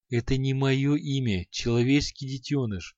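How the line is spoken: Demon, gentle smiling tone. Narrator (Russian): Ласково улыбнулся демон

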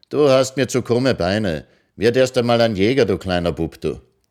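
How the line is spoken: Calling across. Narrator (German): rief sie hinüber

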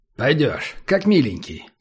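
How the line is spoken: Calm. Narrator (Russian): спокойно сказал Убер

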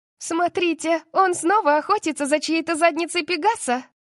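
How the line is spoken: Someone shouting. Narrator (Russian): крикнул кто-то

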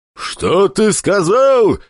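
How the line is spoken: Furious roar. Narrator (Russian): взревел Пападос, только что дым из ноздрей не извергая

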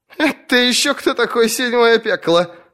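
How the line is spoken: Laughing question. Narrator (Russian): с хохотом вопросила она

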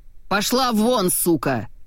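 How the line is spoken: Roar. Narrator (Russian): взревел Этьен

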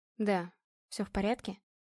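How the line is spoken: Quiet. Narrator (Russian): Тихо проговорила Ева

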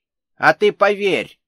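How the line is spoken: Sharp interjection. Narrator (Russian): резко вставила Ольга Николаевна

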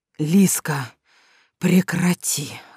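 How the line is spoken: Whispering. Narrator (Russian): зашептал Мерген

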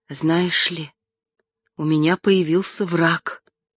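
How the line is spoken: Whispered. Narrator (Russian): сказала она шепотом

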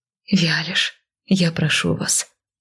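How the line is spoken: Soft, conciliatory. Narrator (Russian): мягко произнесла, осознавая, что наглостью тут ничего не добьешься

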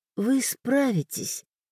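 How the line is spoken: Whisper. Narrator (Russian): прошептала

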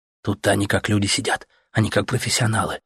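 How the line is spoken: Whispered explanation. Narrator (Russian): объяснил он Артему шепотом

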